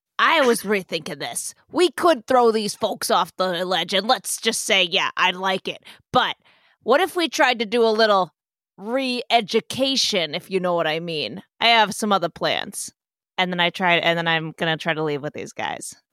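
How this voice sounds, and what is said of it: Character voice for Parlo. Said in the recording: “your Parlo voice is getting much better as you go, actually. ... I just tried to do a Parlo impression instead of a Wallace doing Parlo impression”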